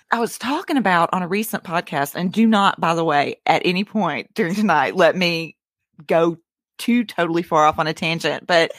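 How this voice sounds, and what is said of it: Residual Alabama Southern accent. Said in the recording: “I've kicked a lot of the Alabama, but as you can tell, it's”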